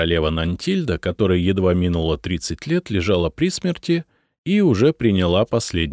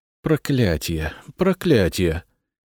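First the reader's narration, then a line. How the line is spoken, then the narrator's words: Muttering. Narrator (Russian): бормотала Мария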